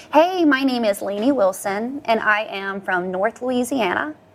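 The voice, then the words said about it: Put-on valley girl accent. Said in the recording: “a little valley girl ... I guess if I was a valley girl”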